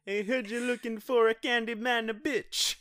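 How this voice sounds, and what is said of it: Over-the-top fake Italian accent. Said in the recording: “giving a fake voice... an over the top Italian accent... that was not your real voice”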